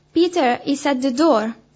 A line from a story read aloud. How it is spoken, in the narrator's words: she was so overjoyed that she exclaimed